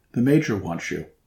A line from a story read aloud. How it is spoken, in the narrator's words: the adjutant said